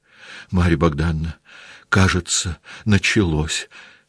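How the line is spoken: Frightened. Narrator (Russian): сказала княжна Марья, испуганно раскрытыми глазами

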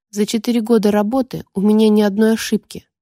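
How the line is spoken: Low muffled growl. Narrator (Russian): глухо рыкнул Дот

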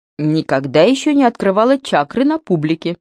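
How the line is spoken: Giggling. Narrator (Russian): хихикнула Дана

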